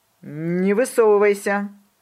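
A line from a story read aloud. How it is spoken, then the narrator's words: Iron-firm voice. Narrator (Russian): мама сказала железным голосом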